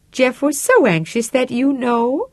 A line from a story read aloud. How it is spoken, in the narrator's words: she said in a bright, chipper voice